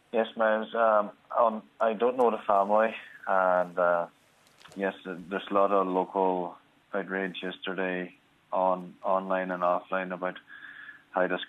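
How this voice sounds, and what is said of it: Irish Donegal accent. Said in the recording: “as people will detect from your accent, you're a Donegal man.”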